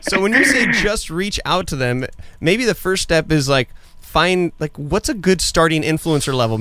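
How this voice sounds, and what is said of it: Austrian accent in English. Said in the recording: “Austrian, with the accent”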